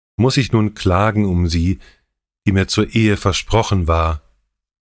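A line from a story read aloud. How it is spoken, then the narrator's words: Called out. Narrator (German): rief Herwig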